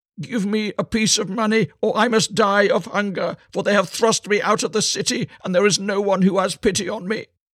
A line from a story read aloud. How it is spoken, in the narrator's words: called out to him, and said